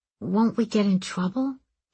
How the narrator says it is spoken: he asked his friend softly

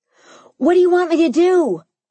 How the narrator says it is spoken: I yelled

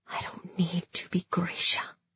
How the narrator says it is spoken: I whispered

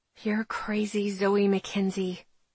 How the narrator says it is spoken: I whisper to myself

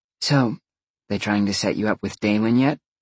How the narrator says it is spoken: Roxy whispered

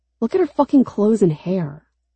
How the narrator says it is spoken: Lon says sharply

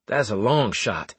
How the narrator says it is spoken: I said

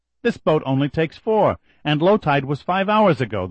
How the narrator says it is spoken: the lady snapped

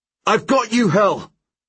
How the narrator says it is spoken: I shout

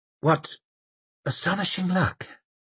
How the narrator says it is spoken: muttered the mayor

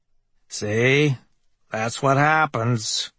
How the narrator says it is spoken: Burroughs says in his expressionless voice

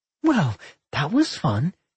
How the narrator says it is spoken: Millie giggled cheerfully

